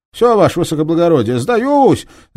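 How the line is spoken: Crook's shout. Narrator (Russian): закричал мошенник

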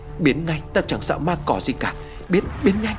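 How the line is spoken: Screaming. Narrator (Vietnamese): tiếng thét của Chí Thông

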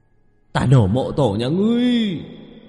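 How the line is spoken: Ghosts' shrieking. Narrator (Vietnamese): bốn mượn thi quỷ gào thét

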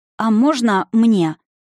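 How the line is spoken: Uncertain. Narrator (Russian): Неуверенно проговорила Евгения

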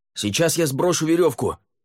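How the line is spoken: Shouted. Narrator (Russian): крикнул Лаверн

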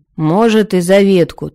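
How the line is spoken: Gloomy agreement. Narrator (Russian): также мрачно согласился Торир

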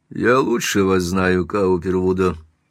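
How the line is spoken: Calm. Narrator (Russian): спокойно отвечал Эдисон

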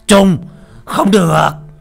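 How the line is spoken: Urgent shout. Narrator (Vietnamese): tiếng ông Lâm thúc giục lại la lên

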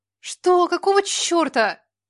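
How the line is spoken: Shouting. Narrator (Russian): закричала она

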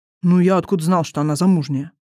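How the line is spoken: Snort. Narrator (Russian): фыркнул брат

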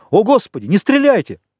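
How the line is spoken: Shouted. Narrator (Russian): Бокс крикнул

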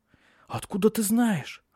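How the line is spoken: Frightened exclamation. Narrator (Russian): испуганно воскликнула она

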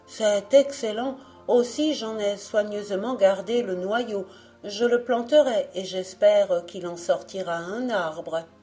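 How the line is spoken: Eldest exclaiming. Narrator (French): s'écria l'aîné

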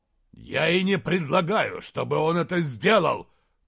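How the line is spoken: Growled. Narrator (Russian): прорычал Изгримнур

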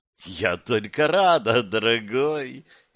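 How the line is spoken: Purring. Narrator (Russian): промурлыкала та

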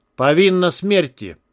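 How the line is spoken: Calm man. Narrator (Russian): спокойно сказал мужчина

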